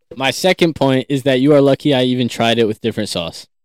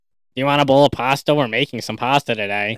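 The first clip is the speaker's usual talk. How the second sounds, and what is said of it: Imitates another person's voice. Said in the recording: “his impression of you is spot on... It's spot on... you're overdoing it because he's doing it to a certain extent where it does sound like you”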